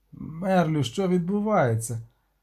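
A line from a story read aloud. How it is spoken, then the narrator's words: Hoarse. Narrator (Ukrainian): обізвався хрипло Люк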